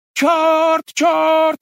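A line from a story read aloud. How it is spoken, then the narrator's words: Shouting. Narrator (Russian): кричало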